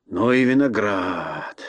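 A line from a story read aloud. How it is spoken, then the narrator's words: Sailor muttering. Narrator (Russian): бормотал моряк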